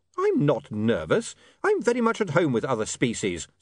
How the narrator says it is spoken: said William hotly

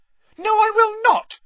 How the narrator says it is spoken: yelled Ginny, beside herself

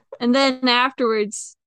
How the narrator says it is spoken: the kid yelled out

